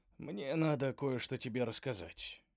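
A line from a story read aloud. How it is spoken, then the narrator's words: Said quietly. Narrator (Russian): тихо сказал он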